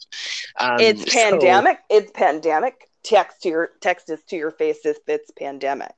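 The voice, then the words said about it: Canadian accent. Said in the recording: “Your Canadian accent came out”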